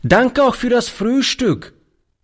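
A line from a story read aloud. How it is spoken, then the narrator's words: Calling out while leaving. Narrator (German): rief er beim Hinausgehen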